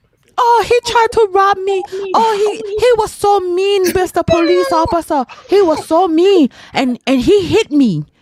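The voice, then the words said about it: Put-on Asian and Spanish accent. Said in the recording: “Is that your Asian accent or your Spanish accent? ... is both.”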